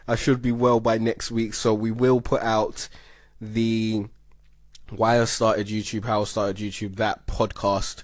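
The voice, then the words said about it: Slightly sick-sounding, recovering voice. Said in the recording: “As you can hear, my voice is getting better. I am getting less ill”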